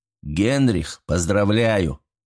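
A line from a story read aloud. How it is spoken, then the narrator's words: Muttered. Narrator (Russian): пробормотал Артур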